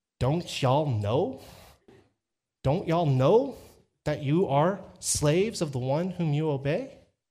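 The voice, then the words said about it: Texas twang. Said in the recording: “I'm from Texas, because I can translate using my Texas twang.”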